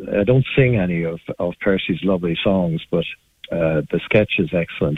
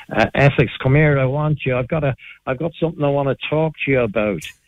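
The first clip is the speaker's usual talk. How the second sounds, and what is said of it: Put-on Dublin accent. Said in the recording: “Queen Elizabeth speaks with a Dublin accent”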